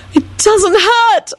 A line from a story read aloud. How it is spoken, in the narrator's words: Elizabeth yelled ecstatically